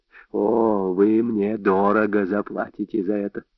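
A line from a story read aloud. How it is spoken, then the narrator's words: Hoarse. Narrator (Russian): хрипло сказал Вольф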